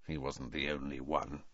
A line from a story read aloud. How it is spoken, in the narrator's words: said Sirius bitterly